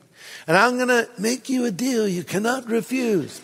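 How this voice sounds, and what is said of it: Bad Godfather impression. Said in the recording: “Bad Godfather imitation.”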